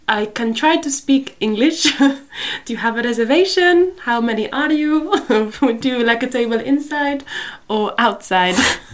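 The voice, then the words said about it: Imitation of mother's accent. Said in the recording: “I was trying to channel my mother's accent there, but I don't think it sounded like that.”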